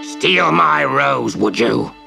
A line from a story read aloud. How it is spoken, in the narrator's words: snarled